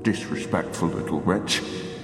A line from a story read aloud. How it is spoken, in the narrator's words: Old Man Caswell muttered at me at the sight of my Coke bottle glasses and filthy lab coat